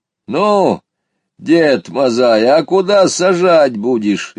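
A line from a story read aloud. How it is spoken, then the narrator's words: Cheerful shout. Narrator (Russian): весело крикнул мой спутник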